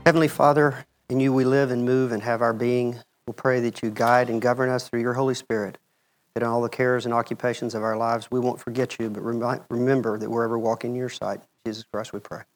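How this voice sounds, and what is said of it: Thick rural Texas accent, voice with a cold. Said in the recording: “I've got a little bit of a cold. It's more than my thick rural Texas accent.”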